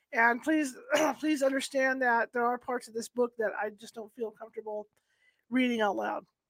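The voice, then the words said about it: Voice cutting in and out. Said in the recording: “you can tell by my voice that it's in and out”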